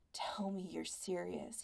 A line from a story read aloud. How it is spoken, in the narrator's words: he murmured